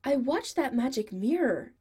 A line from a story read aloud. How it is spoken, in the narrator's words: Adam says excitedly